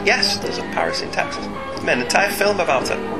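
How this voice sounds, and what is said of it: Usual voice. Nothing is said of it.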